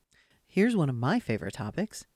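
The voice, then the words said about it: Sarcastic tone. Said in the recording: “Can you hear the sarcasm in my voice?”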